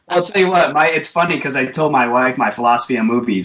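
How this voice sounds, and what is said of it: New England, Boston-type accent. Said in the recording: “I'm hearing a little bit of a Long Island or New York accent... Rhode Island... The Boston sort of pachyka”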